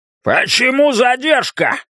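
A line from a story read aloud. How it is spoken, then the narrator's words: Shout. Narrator (Russian): прокричал он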